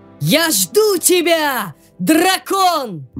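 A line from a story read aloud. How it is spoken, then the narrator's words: Loud shout. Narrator (Russian): маленький силач прокричал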